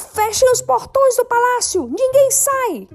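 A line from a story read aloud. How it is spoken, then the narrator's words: Guard shouting in panic. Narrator (Portuguese): O representante da guarda grita em pânico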